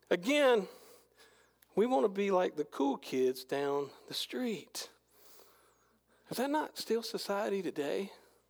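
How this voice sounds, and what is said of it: Strained, fading hoarse voice. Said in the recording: “I am losing my voice.”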